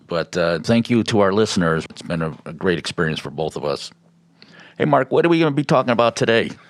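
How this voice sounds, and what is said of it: Chicago accent. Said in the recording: “I'm trying to get rid of the Chicago accent, but I don't think I'm going to get rid of it.”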